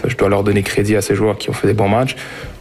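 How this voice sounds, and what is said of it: Slightly French-sounding accent. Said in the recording (French): “cet accent légèrement français”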